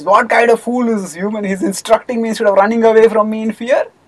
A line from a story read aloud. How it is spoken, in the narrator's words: Hidimba laughed and he says